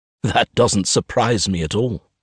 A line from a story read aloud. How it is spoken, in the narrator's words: I laugh